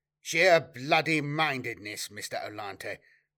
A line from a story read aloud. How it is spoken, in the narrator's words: replied Semper